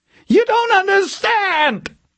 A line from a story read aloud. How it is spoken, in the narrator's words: he screamed at her, wild urgency in his voice